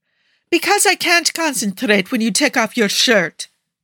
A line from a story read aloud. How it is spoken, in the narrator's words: Chesedek shouted in frustration